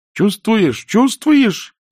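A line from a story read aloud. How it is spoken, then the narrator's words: Shrieking. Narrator (Russian): завизжала принцесса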